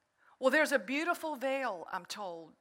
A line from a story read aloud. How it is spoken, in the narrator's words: says the gatekeeper